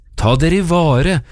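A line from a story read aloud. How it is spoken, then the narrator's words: Shouted warning. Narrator (Norwegian): ropte den til de små vergeløse ungene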